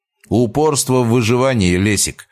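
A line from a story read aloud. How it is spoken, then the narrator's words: Snort. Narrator (Russian): хмыкнул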